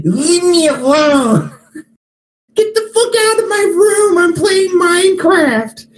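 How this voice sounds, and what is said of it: Whiny yelling child voice. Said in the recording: “You sound like an iPad kid.”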